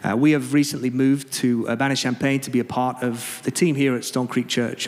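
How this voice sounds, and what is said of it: English accent. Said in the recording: “You speak funny... I do speak funny... It's just an English accent.”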